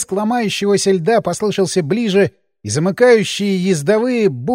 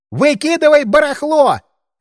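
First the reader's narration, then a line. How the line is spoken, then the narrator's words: Shouting at full strength. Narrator (Russian): прокричал я, что есть мочи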